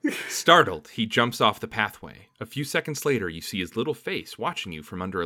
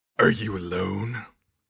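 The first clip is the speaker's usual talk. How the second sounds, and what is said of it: Deep character voice. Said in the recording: “He's going to have like an uncharacteristically deep voice. So I'm just going to do Piccolo from Dragon Ball Z. ... But the ocean dub.”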